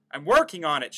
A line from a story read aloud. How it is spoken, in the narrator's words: shouted Tomo